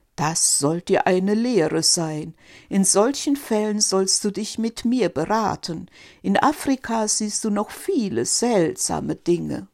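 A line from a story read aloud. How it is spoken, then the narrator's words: Laughing stork speaking. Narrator (German): Der Storch lachte und sagte zu Quark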